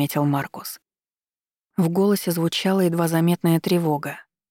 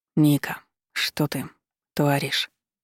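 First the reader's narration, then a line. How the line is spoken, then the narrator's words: Furious hoarse rasp. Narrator (Russian): прохрипел он, бешено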